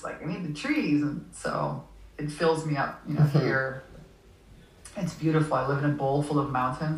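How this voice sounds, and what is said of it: Canadian English accent. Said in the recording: “I'm Canadian originally ... I can tell. I can hear it. Your accent.”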